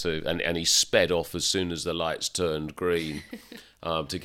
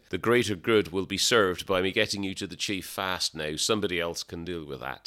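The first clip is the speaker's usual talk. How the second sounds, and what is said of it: Put-on Irish accent. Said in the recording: “Forgive the Irish accent”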